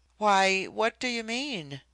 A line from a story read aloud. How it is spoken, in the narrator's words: I stammered